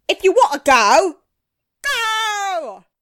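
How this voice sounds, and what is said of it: Put-on Cockney accent. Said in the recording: “he teaches them a Cockney accent.”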